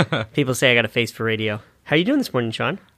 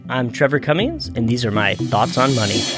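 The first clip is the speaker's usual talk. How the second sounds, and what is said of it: Announcer-style radio voice. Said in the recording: “radio voice”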